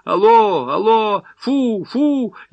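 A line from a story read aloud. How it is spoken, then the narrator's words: Patient shouting into phone. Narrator (Russian): больной в белом костюме, и то и дело, продувая трубку, кричал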